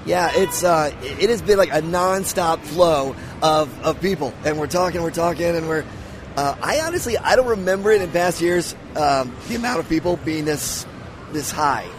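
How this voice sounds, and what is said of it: Scratchy, fading voice. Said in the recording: “I'm losing my voice. I've been talking nonstop. ... it's a little scratchy.”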